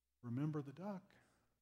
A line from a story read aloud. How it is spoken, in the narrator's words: she whispered again